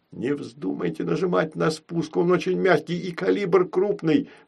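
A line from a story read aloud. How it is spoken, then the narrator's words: Pleading. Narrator (Russian): взмолился снайпер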